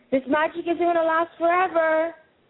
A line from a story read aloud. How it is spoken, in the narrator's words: Monique shouts from down below